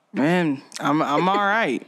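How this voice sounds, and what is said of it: Sad, downcast voice. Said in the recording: “you sound sad”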